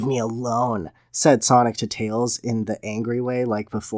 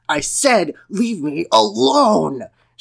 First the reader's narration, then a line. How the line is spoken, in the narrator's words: shouted